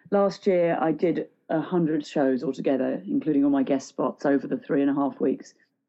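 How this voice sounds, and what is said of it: Sore, slightly congested voice. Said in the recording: “my voice is a little bit sore... I've got a little bit of a cold”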